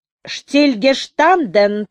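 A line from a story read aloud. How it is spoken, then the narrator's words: Terrible voice. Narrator (Russian): повторил толстый ефрейтор ужасным голосом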